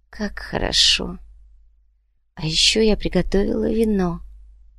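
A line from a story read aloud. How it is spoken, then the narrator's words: Whisper. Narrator (Russian): прошептала Марина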